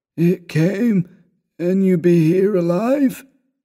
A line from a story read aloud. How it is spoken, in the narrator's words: Ward croaked the words, his voice seemed almost to burst free of its trammels and sink to cavernous abysses of uncanny resonance